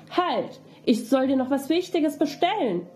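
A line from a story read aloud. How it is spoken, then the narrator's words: Galloping rider calling out. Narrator (German): ein blanker Reiter hinter ihm hergesprengt und rief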